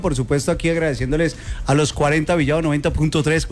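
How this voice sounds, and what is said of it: Radio announcer voice. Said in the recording (Spanish): “pura voz de locutor”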